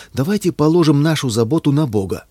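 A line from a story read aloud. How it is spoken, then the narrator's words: Beaming exclamation. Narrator (Russian): сияющим лицом воскликнул Филипп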